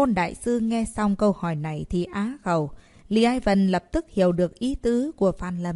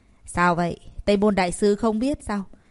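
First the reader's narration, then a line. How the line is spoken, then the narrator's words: Cold, annoyed question. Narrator (Vietnamese): Lý Ai Vân có chút tức giận, lạnh lùng hỏi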